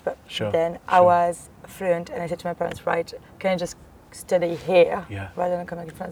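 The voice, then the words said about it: Strong French accent. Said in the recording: “the accent is still very strong ... another character than just French”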